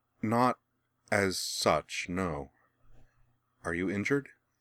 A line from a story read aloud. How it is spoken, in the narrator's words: she replied hesitantly